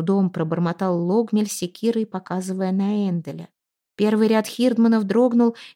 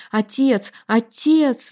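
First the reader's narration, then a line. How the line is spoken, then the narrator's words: Urgent calling-back cry. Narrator (Russian): закричала она, как будто хотела вернуть пошедшего не туда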